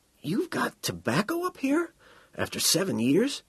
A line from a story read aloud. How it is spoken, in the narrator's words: he said in a husky voice